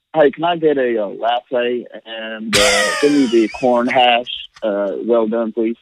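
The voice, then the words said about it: Put-on Southern American accent. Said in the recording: “I just instantly order it in like a South, Southern Nashville accent kind of thing. Oh, not a very good accent ... You've nailed it, man. I would have thought you're from Mississippi, Alabama, somewhere in there.”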